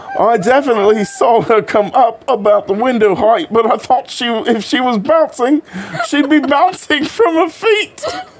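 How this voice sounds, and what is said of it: Put-on British accent. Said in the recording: “I say that as I'm about to go into another British accent.”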